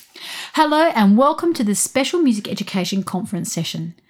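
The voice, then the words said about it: Australian accent. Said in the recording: “you can probably tell with an accent like mine that I'm based in Australia”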